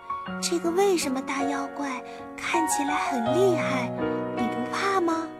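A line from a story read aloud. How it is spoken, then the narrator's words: Small girl whispering question. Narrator (Chinese): 小黑妞小声问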